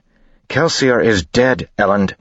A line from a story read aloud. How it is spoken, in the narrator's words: Vin snapped